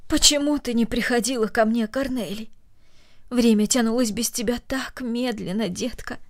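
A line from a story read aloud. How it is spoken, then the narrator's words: Tender. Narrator (Russian): добавила она нежно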